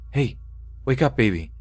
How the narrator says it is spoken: whispering

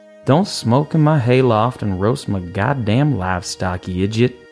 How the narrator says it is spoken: he sighed

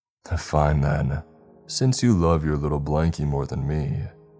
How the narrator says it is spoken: the chuckling came back and he said

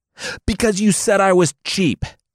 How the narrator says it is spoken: Jarl Neri screamed

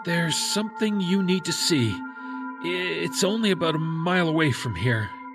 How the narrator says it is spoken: he said nervously

